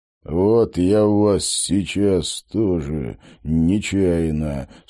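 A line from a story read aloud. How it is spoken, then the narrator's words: Menacing voice. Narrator (Russian): страшным голосом пообещал Стрелок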